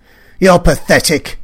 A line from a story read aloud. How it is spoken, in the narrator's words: he snapped